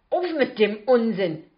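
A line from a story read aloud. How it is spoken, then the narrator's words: Snapping. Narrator (German): schnauze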